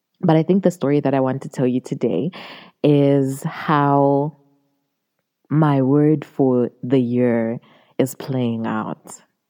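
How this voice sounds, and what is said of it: Hoarse, strained voice. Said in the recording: “Can you tell my voice is going?”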